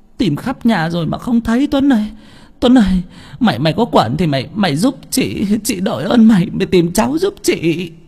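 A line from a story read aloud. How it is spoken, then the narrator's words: Crying, wailing. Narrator (Vietnamese): Chị Bảy khóc lóc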